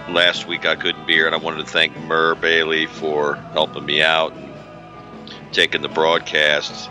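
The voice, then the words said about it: Hoarse, strained voice. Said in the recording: “as you can tell, my voice is quite torched ... As you can hear, I'm a week into this thing”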